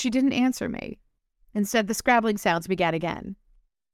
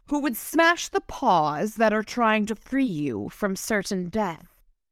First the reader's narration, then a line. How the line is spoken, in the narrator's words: Tara growled